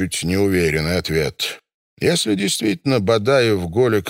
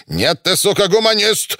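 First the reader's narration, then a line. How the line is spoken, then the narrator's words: Barked. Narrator (Russian): рявкнул Жунев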